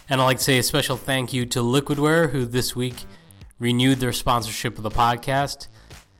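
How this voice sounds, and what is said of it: Congested, slightly off-sounding voice. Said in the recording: “my voice might sound a little off this week... I've got a pretty bad head cold this week... have the audio sound a little clunky”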